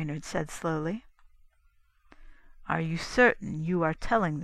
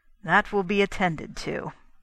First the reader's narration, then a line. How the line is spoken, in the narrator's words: Brainerd said grimly